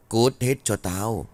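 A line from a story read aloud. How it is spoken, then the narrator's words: Harsh, clipped voice. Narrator (Vietnamese): gằn giọng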